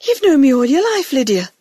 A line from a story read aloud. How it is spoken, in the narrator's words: Grandmother said earnestly